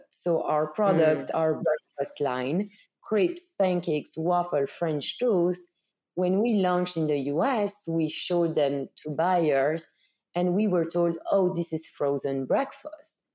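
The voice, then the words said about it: Belgian-accented English. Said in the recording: “you hear it from my accent. I'm from Belgium.”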